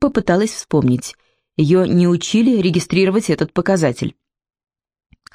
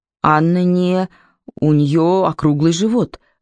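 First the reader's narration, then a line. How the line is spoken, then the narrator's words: Timid objection. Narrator (Russian): робко возразила Лип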